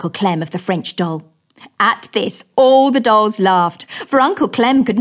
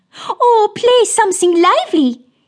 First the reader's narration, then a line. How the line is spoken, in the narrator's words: said the French doll as she giggled